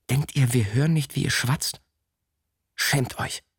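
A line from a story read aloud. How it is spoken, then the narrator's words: Hiss. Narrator (German): zischte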